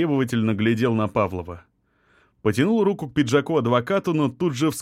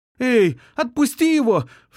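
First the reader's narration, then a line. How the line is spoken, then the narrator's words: Alarmed shout. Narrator (Russian): встревоженно крикнула подруга задира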